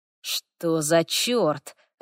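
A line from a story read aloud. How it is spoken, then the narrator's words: Alarmed muttering. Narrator (Russian): раздалось встревоженное бормотание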